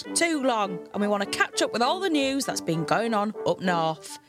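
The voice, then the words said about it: Hull accent, northern English. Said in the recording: “you might be able to tell from my accent, I come from Hull”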